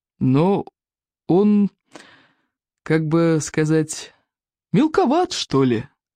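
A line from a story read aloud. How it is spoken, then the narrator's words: Slow, hesitant. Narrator (Russian): медленно произнес стойк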